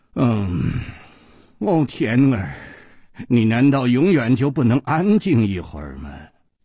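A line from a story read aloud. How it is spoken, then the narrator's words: Low, seductive. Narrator (Chinese): 一声低沉却充满了煽动的吸引力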